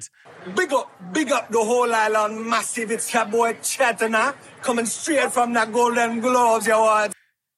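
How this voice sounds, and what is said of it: Put-on accent. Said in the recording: “accent that he used during the 2019 Golden Globe Awards”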